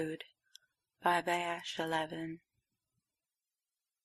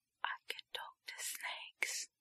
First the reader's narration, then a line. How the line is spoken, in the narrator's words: he whispered to himself, making the words hiss and vibrate in his throat